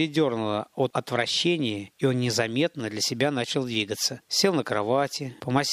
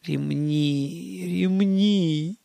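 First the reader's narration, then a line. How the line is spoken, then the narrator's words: Groaning. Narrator (Russian): простонал Гарин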